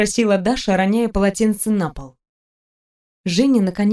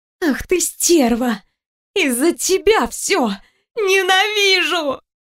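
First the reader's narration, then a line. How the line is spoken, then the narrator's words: Screaming. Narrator (Russian): закричала Женя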